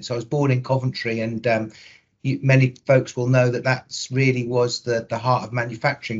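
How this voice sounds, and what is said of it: Midlands English accent. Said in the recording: “the people from England that will be listening, will detect a Midlands accent.”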